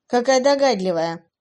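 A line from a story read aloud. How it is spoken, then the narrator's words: Contemptuous snort. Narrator (Russian): презрительно фыркнула она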